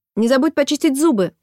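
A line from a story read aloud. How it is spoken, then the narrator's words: Mother shouting. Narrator (Russian): крикнула мама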